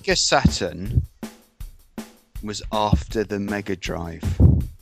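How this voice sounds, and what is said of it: Patronizing Jeremy Clarkson impression. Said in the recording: “in a Jeremy Clarkson patronizing accent”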